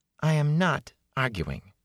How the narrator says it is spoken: she said calmly

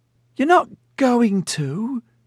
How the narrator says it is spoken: Janine squealed

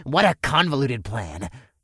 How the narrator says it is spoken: the goblin scoffed

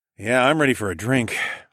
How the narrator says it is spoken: sighed

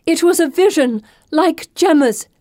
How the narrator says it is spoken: Pippa shouts

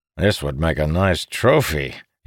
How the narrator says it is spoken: he said with a chuckle

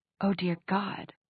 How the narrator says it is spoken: she whispered

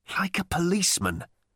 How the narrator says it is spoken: he hissed at Ford, with his brow savagely furrowed

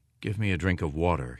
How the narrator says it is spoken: he said

